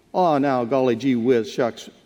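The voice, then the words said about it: Put-on folksy regional accent. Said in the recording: “We have this accent up here in Galilee.”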